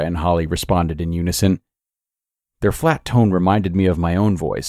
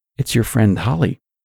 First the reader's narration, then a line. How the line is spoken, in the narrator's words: whispered